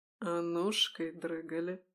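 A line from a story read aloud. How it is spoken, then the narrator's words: Whisper. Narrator (Russian): Шепнул он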